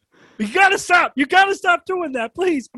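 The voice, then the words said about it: Yelling. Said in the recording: “I'll stop yelling!”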